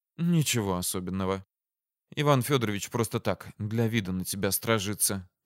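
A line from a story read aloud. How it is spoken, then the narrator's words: Whisper. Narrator (Russian): шепнула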